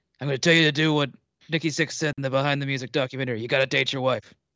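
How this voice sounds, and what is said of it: Imitated TV character voice. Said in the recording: “do it my Roy Kent voice”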